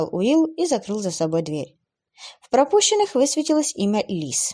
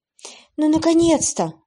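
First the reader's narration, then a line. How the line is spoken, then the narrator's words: Exhaled into phone. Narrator (Russian): выдохнула в трубку Лиса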